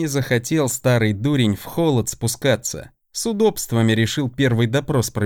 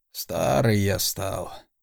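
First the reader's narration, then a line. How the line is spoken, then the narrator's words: Quiet, reluctant admission. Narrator (Russian): тихо проговорил Александр Ранг, словно не желая признавать этот досадный факт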